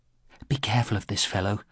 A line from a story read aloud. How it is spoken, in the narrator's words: whispered in a low voice